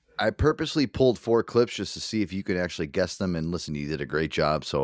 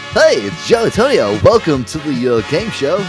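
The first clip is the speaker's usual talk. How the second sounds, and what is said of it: Game show host voice. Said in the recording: “I get to do my game show voice.”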